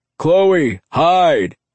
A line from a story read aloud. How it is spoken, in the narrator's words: Drago's muffled yell